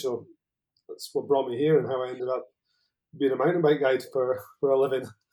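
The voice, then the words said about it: Mild northern Scottish accent. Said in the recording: “I'm originally Scottish, as you can probably tell... I'm from the very north of Scotland... probably my accent's mellowed off a little bit.”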